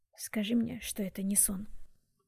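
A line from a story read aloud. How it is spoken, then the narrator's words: Whisper. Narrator (Russian): прошептал Уилл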